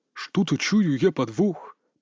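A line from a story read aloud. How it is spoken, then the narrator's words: Muttering. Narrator (Russian): пробормотал один из якай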